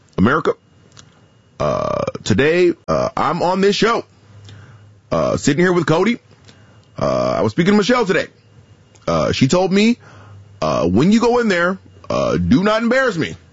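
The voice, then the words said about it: Imitates another person's voice. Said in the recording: “I have a pretty decent Barack Obama ... The Obama was the good one.”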